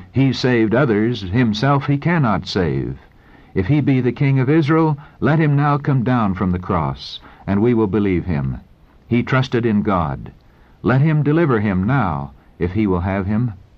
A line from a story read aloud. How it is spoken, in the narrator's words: With shuddering horror, wagging their heads in satanic exultation, they exclaimed